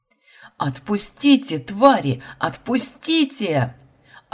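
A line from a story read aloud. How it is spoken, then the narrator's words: Screaming, voice breaking. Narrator (Russian): Орала, срывая голос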